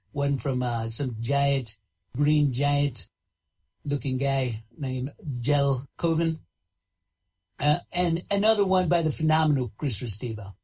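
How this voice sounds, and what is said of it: Donald Trump impression. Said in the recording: “This is the Donald Trump, President, United States, calling in ... fake Donald Trump ... the impression”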